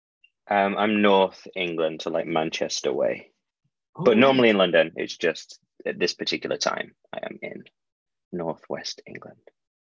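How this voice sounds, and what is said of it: English accent. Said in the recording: “I'm going to guess by your accent that you're probably in London or something”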